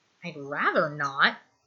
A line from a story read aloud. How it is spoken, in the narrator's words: Stiles mutters